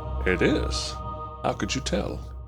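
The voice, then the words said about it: Silky, sexy character voice. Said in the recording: “That silky, sexy voice that you have.”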